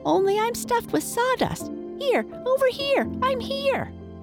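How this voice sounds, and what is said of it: High, squeaky doll voice. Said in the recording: “a high, squeaky voice”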